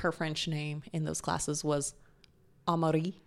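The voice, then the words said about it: Name said in French accent. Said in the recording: “Or however you say it with a really nice French accent.”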